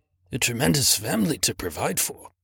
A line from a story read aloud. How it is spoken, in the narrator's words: muttered Scrooge